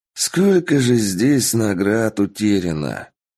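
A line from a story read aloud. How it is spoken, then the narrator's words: Sorrowful sigh. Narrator (Russian): Горестно вздохнул мужчина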